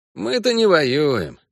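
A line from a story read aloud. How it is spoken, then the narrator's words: Snorted. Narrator (Russian): хмыкнул Эскель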